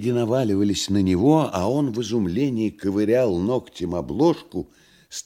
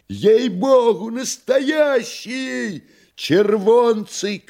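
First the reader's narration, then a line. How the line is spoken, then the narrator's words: Joyful shouts from afar. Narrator (Russian): кричали с галерки радостно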